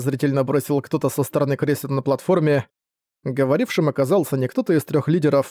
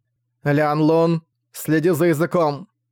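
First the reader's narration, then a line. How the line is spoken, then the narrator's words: Cold sharp rebuke. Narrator (Russian): Одёрнула, при этом её глаза холодно блеснули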